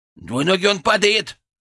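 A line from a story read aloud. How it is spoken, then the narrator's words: Yelling. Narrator (Russian): завопил Фырк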